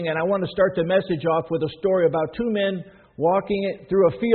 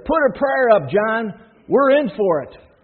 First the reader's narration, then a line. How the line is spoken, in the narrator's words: Terrified, one shouted out